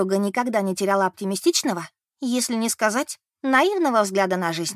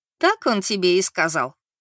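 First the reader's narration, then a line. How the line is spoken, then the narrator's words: Laughing. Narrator (Russian): рассмеялась Мэри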